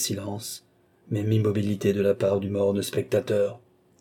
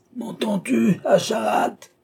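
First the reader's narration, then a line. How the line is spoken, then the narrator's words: Old man's furious throat-tearing bellow. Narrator (French): vociféra le vieillard en déchirant son gosier pour faire passage à cette dernière irruption de sa colère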